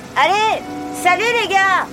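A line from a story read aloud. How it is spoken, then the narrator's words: Shouted. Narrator (French): cria Jessie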